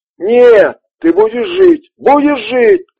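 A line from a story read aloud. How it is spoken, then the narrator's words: Shouting. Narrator (Russian): кричал Рич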